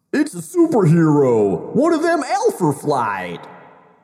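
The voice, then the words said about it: Exaggerated put-on Canadian accent. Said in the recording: “I'm not sure you have a solid sense of Canadian accents”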